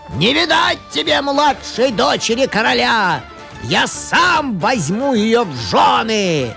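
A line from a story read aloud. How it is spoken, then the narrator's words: Many-headed dragon's shout. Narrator (Russian): дракон о 24 головах крикнул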